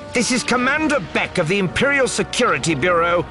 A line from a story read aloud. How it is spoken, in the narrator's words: the woman shouting